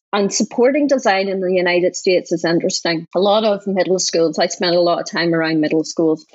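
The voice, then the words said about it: Northern Irish accent. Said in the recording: “we've never lived in Northern Ireland. So you hear this accent and everybody assumes”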